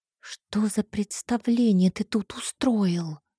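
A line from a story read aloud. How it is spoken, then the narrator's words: Whispering. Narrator (Russian): зашептала я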